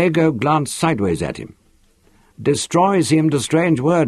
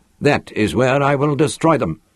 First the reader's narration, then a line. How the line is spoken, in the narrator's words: went on firmly